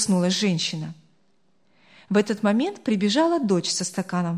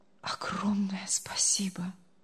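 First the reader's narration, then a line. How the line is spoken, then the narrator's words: Barely audible speech. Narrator (Russian): едва слышно проговорил он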